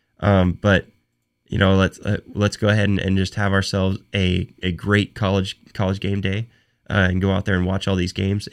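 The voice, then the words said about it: Hoarse voice from a cold. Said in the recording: “while I have this cold ... I'm not fighting through this and losing my voice”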